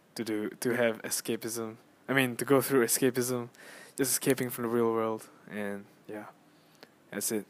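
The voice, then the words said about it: Fading, hoarse voice. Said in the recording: “my voice is disappearing”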